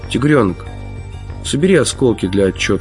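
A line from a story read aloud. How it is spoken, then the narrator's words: Calm. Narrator (Russian): спокойно сказал Гарик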